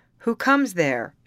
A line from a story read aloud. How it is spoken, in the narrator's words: shouted the sentry